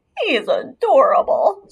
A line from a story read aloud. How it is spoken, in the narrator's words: squealed Mary Lou